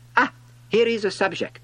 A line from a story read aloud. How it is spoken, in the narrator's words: exclaimed the king